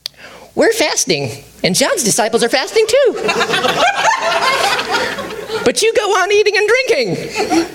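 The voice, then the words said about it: Character voice of a Pharisee. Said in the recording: “my impersonation of a Pharisee”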